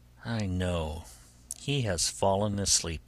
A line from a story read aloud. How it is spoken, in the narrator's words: she said to herself, sighing